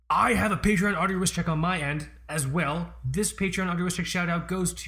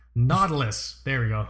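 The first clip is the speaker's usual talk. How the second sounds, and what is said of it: Long Island accent on a word. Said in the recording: “I spent too long on Long Island ... he had this fucking accent, so I do it sometimes on words.”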